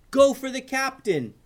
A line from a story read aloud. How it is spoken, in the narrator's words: yelled Ben